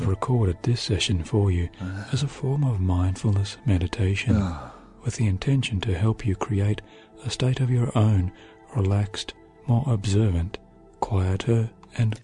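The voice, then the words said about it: Strange accent, pronounced T's. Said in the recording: “he's got a strange accent ... He says his T's”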